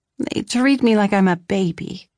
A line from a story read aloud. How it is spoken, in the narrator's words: I groaned